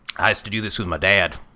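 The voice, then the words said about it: Put-on Southern accent. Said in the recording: “He didn't have a southern accent. I don't know why I did that.”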